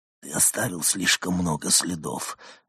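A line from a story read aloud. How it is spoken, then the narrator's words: Listless whisper, not accusing. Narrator (Russian): вяло прошептал, не в силах придать голосу обличительной интонации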